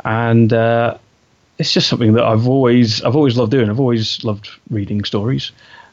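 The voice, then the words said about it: English accent. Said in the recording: “I'm obviously from England. You know, you can tell from my accent”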